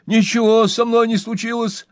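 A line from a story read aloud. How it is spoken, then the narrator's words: Frightened. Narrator (Russian): испуганно ответил Джо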